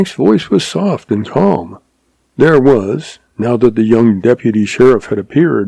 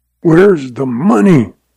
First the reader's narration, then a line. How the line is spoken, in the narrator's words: rasped Lem Craig